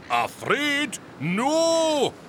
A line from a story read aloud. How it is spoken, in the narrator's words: shouted Ben and Donner